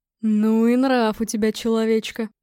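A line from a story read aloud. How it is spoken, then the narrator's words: Admiring grumble. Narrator (Russian): восхищенно проворчал Гром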